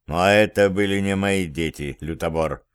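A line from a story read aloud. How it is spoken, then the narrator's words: Cold reply. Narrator (Russian): холодно ответил Зверев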